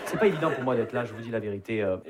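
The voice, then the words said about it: Southern French Perpignan accent. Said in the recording (French): “Vous l'entendez à mon accent, je viens pas de Paris. Je viens de Perpignan.”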